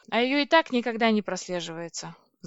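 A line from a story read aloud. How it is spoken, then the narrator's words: Sigh. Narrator (Russian): вздохнула я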